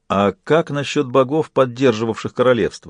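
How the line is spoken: Plain. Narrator (Russian): спросил Джек

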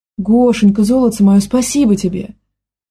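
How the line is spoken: Exclamation. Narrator (Russian): воскликнула тетя Лена

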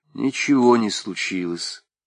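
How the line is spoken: Calm reply. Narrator (Russian): спокойно ответила отцу Кыча

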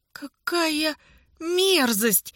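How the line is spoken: Groan. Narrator (Russian): застонал писатель

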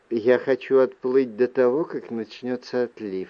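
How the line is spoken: Plain. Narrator (Russian): ответила она

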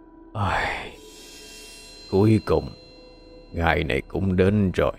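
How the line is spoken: Sad deep sighing voice. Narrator (Vietnamese): trầm mặc thở dài, âm thanh buồn bã âm trầm vang lên

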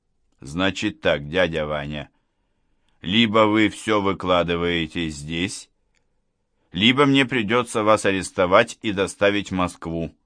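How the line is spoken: Stern declaration. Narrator (Russian): строгим тоном заявил Гуров

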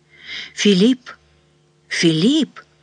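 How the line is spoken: Soft, anxious calling. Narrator (Russian): Кто-то звал его, мягко и тревожно

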